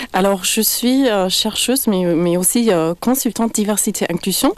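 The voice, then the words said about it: German accent in French. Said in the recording (French): “mon accent allemand que vous entendez en ce moment”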